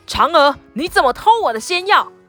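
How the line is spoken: Loud shout. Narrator (Chinese): 后羿大声喊

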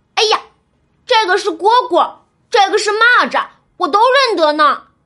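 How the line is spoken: Excited child shouting. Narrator (Chinese): 板儿又跑过来看，指着纱帐上的虫子嚷嚷

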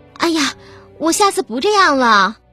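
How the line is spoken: Pleading. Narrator (Chinese): 韩小慧连连哀求

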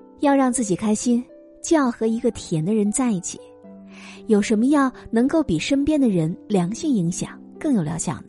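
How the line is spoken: Doctor, laughing. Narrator (Chinese): 医生笑着说

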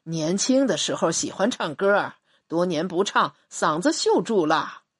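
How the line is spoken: Beaming, modest. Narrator (Chinese): 朱总瞬间笑容灿烂，谦虚地说

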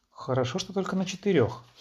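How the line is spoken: Plain. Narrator (Russian): сказал я

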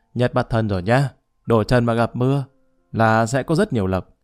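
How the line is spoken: Booming loud, contractor. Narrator (Vietnamese): tay cai thầu nói oang oang

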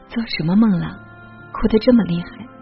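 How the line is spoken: Sighing. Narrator (Chinese): 他叹息

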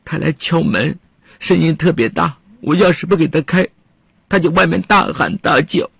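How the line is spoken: Crying. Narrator (Chinese): 曹健哭着说

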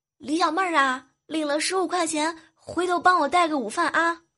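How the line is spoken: Loud shout. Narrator (Chinese): 未来哥哥大喊一声

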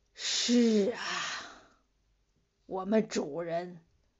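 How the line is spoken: Slow drawl. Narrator (Chinese): 黄牛躺在草地上，慢吞吞的说

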